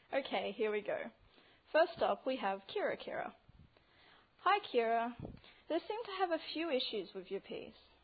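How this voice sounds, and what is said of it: Australian accent. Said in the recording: “from Brisbane, Australia ... I'll probably pronounce few things a little differently to what you're used to ... try not to wet yourself laughing at my accent.”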